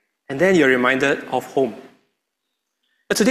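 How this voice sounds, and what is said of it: Usual voice. Nothing is said of it.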